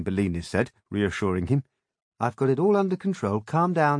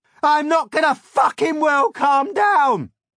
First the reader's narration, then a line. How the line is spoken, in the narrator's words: Gagmez howled